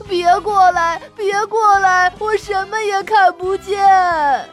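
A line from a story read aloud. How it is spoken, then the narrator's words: Crying. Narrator (Chinese): 哭着说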